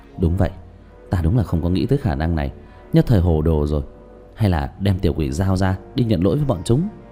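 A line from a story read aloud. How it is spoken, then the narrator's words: Stunned mutter. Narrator (Vietnamese): Tứ Bảo há hốc mồm lẩm bẩm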